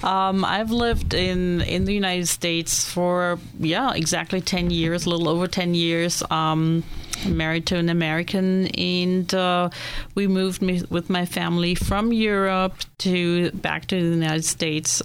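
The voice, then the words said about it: Slight German accent. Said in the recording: “You probably hear my accent a little bit come through. ... My homeland is Germany.”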